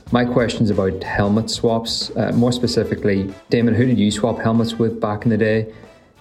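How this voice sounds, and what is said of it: Belfast Northern Irish accent. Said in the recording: “do love the Belfast accent”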